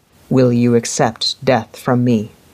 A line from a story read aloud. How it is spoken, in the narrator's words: Carnan Day asked